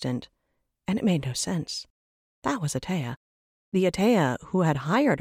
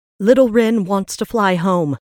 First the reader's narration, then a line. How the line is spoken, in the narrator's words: Rin yelled out